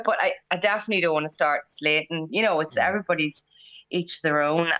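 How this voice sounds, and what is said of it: Strong Irish accent. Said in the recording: “you're from the same part of the world as me, County Monaghan ... my accent is probably quite strong”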